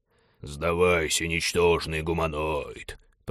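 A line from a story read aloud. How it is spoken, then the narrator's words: Hoarse, sinister bass. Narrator (Russian): прохрипел пилот зловещим басом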